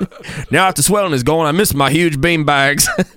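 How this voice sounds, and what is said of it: Bad put-on Australian accent. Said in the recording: “the absolute worst Australian accent this show's ever produced ... It's fucking awful ... You sound kind of... Scottish, a little drunkish”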